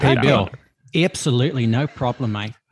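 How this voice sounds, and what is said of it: Put-on New Zealand accent. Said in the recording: “very bad New Zealand accent that he... he tries to do it ... It's so good ... It's really good ... you are that man when you do that voice”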